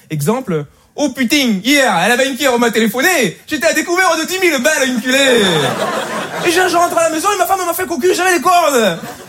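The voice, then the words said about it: Put-on Marseille accent. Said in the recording (French): “l'accent marseillais”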